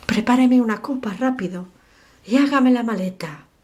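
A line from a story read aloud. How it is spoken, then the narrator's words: Exclaiming. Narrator (Spanish): exclamó Hobart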